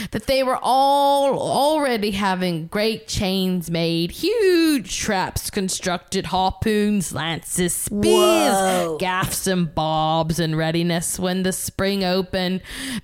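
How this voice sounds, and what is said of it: Inconsistent put-on accent, wandering. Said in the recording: “My accent has gone, ... it's going everywhere. ... I feel I'm on a world tour with this accent.”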